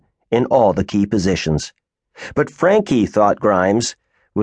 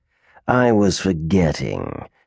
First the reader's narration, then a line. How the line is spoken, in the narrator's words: sneered Delamere